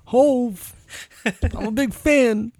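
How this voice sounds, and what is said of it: Rapper impression, Walken-like pitch. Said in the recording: “That's a weird voice... kind of Christopher Walken, but you're not committing fully... somewhere in the middle... The cadence is right. It's just the pitch.”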